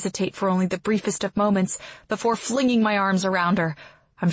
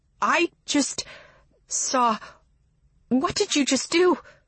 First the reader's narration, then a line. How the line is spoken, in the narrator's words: she stammers